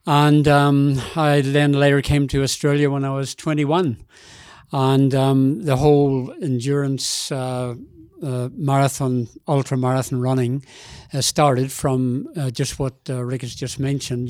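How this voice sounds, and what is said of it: Northern Irish accent. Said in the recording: “that doesn't sound like a native Berwick, Victoria, Australia accent ... I was born in Belfast in Northern Ireland”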